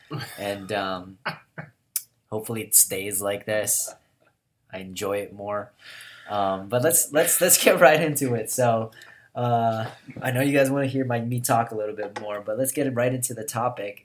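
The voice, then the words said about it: Unusually deep, low voice. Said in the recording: “I got a pretty deep voice. I got that Johnny Cash voice right now ... NyQuil be doing you right ... This is what my voice sounds like”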